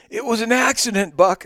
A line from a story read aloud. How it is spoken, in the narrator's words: I cried